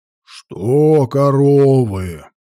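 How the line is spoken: Deep bass, middle-aged man interrupting. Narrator (Russian): густым басом перебил их кряжистый мужик лет 50

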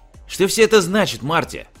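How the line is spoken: Irritated exclamation. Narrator (Russian): раздраженно воскликнул Фредерик

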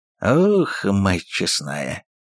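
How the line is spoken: Surprised hoarse rasp. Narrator (Russian): удивленно прохрипел один из стрельцов

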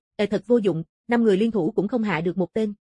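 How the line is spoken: Cold. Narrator (Vietnamese): Dạ Xoa lạnh lùng nói

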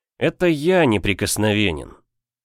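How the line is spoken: Tired sigh. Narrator (Russian): Вздохнул я устало

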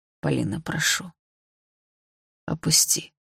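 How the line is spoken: Quiet, pleading. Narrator (Russian): уже тихо сказал Дима

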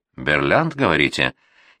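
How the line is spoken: Snide smirking remark. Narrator (Russian): ехидно усмехнулась Наталья Михайловна

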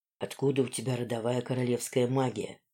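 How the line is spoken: Whisper in ear. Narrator (Russian): прошептал мне сзади на ухо лорд Ранадар

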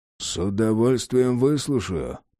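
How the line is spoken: Muttered through teeth, over shoulder. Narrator (Russian): процедил через плечо

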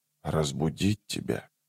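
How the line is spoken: Whisper. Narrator (Russian): прошептал он

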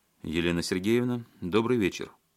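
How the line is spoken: Dry. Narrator (Russian): сухо сказал он

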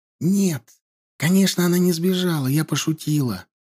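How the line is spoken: Whispered. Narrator (Russian): зашептала она

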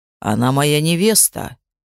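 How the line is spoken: Calm reply. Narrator (Russian): спокойно ответил Кростис

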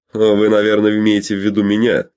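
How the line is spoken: Shouting. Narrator (Russian): крикнул ему Фрэнк

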